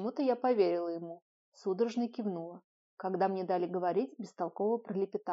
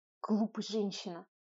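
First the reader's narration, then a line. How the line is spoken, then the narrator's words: Hissing. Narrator (Russian): прошипел Кнесс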